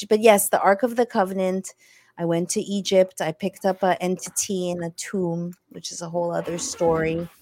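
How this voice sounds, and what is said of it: French accent. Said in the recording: “you kind of this accent that's kind of exotic too ... It's a French accent.”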